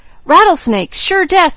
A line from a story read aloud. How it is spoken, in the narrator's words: yelled Jud